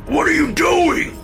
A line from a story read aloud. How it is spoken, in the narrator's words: Dad screamed